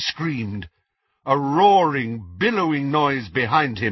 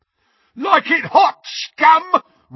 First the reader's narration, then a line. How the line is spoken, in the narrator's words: roared Crabbe as he ran